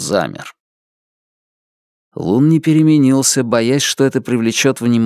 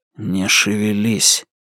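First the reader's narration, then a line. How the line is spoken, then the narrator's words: Whispered. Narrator (Russian): Лун прошептал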